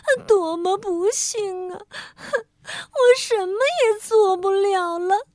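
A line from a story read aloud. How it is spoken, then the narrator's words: Sick, crying. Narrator (Chinese): 他生病了，他哭道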